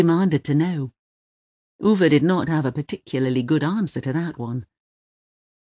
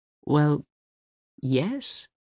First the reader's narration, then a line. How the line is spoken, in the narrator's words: he replied hesitantly